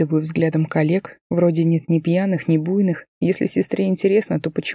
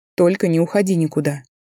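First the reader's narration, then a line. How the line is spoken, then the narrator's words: Stern request. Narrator (Russian): Прошу строго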